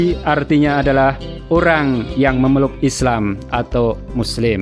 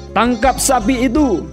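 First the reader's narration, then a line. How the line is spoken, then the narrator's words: Crowd shouting. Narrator (Indonesian): orang-orang Quraisy berteriak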